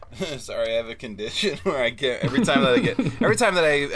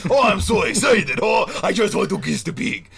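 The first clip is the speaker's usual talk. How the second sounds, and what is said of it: Put-on Russian accent. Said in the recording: “Oh, then I get the little Russian.”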